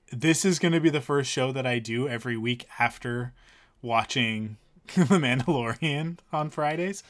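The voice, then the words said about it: Tired, worn-out voice. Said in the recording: “I'm toast too. And you can probably hear it in my voice.”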